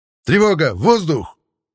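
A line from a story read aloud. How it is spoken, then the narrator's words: Lieutenant's sudden shout. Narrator (Russian): внезапно крикнул лейтенант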